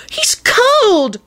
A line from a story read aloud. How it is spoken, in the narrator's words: Rosie wailed